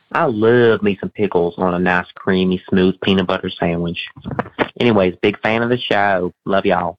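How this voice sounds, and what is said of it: Mellifluous accented voice, Galifianakis-like. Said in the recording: “your accent is the creamy peanut butter to my ears ... they do sound a fair bit like Zach Galifianakis from The Campaign ... sounds like Bruce from Family Guy ... You have a mellifluous tone of voice”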